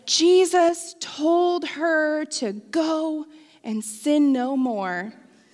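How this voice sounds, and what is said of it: Passionate preacher voice. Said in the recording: “In my very passionate preacher voice”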